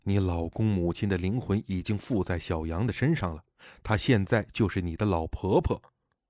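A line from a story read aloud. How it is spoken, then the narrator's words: Low voice. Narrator (Chinese): 我低声说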